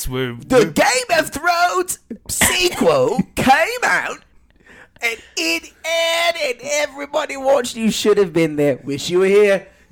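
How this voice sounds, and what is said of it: Put-on video game narrator accent. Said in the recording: “where'd the accent? I feel like you started with no accent, no accent at all. ... You turned into like an NPC narrating an adventure video game.”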